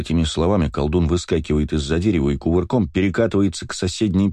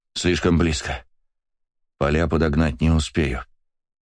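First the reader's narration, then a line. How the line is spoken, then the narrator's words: Whisper through clenched teeth. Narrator (Russian): прошептал, зажав две стрелы в зубах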